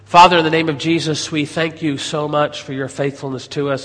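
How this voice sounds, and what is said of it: American accent, nasal congested voice. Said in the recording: “I am healing from a upper respiratory issue ... between my American accent and my nasal scenario”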